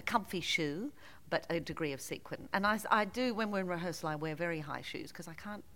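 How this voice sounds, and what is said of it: Faint Australian accent. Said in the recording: “we can hear a hint of your Australian accent.”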